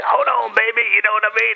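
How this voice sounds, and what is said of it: Guy Fieri impression. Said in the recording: “are you doing Guy Fieri?”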